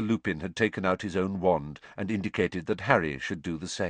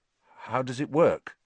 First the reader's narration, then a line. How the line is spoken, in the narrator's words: said Harry nervously